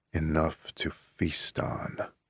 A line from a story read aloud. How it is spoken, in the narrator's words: he rasps